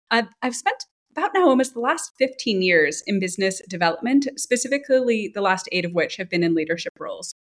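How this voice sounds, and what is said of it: American New York accent. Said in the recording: “as I'm sure the listeners can tell from my accent, I'm not German. I grew up in New York City”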